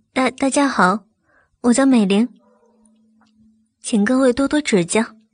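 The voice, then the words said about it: Tiny, timid, mosquito-like voice. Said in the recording (Chinese): “低着头，犹如蚊子一般的声音说着”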